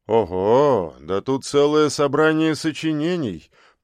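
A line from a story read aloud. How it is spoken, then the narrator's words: Mumbled. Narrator (Russian): пробормотал он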